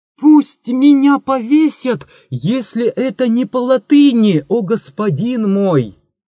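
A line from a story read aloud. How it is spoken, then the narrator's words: Sudden shout. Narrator (Russian): вдруг закричал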